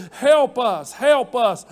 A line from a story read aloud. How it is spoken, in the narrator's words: They cried and they said